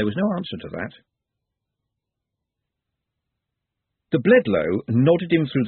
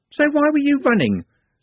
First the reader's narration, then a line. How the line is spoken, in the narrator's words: said Juliet sharply